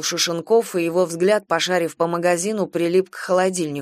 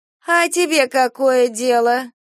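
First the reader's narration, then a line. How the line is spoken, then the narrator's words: Lazy reply. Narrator (Russian): лениво отозвалась женщина из-за прилавка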